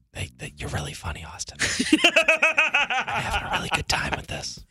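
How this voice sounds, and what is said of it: Whispering. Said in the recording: “why are you whispering? ... Why don't you speak up? Nobody can hear you, dude. ... he can only whisper”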